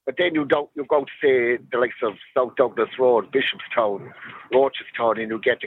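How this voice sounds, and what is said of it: Cork Irish accent. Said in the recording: “a Cork accent”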